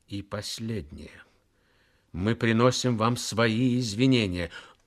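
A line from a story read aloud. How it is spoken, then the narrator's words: Commanding, through clenched teeth. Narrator (Russian): произнес повелительно сквозь зубы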